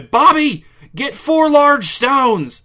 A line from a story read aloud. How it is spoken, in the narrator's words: Vera snapped and shouted